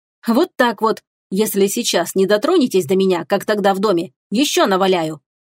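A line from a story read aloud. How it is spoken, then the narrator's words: Threatening. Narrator (Russian): Пригрозила она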